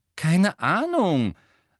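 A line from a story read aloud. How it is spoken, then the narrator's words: Loud. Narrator (German): sagte Harry laut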